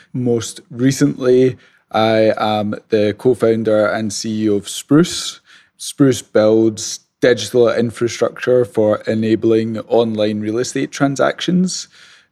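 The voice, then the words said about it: Scottish accent. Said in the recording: “the accent is Scottish”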